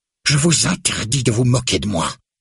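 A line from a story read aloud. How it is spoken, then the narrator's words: Exclaiming, trembling with rage. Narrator (French): s'exclame-t-elle, tremblante de rage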